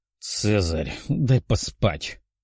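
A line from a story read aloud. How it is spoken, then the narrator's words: Grumbling. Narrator (Russian): проворчала Даша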